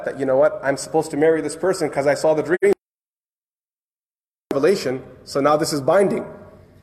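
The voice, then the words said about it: Sarcastic tone. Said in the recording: “Sarcastic, I'm being sarcastic here.”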